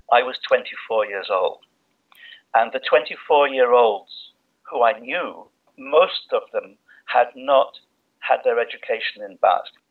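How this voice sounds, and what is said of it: English accent. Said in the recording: “as you might guess from his accent, is English”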